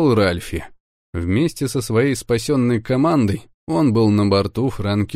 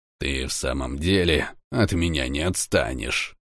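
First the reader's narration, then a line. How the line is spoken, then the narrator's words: Through gritted teeth. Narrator (Russian): процедил он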